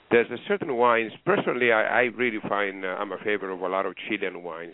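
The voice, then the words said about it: Greek accent. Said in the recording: “The accent here is Greek.”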